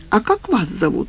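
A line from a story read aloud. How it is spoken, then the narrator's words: Ingratiating, insinuating question. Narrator (Russian): спросила она вкрадчиво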